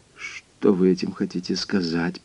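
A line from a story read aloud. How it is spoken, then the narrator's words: Muttering. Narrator (Russian): пробормотал он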